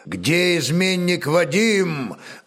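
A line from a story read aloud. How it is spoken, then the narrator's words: Warrior's menacing shout. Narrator (Russian): грозно крикнул первый воин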